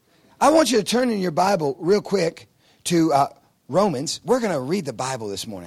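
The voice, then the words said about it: Noticeable, hard-to-follow accent. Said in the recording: “my accent is a little tricky for you”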